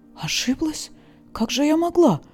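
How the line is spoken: Breathless. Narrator (Russian): выдохнула Леса

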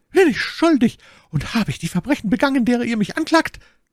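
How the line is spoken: Shrieked. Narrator (German): kreischte Milady

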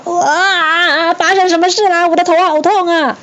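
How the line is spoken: Howling in pain. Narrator (Chinese): 孙悟空就痛得哇哇大叫

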